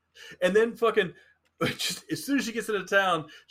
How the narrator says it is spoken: she yells

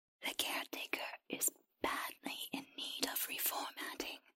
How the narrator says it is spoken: the creature whispered

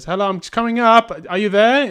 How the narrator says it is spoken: You go shout up the stairs

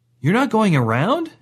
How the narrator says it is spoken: Cedric asked nervously

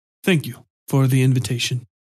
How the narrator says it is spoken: muttered, quickly adding

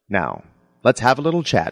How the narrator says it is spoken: she said

